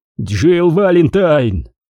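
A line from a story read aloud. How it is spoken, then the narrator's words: Desperate cry. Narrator (Russian): в отчаянии выкрикнул он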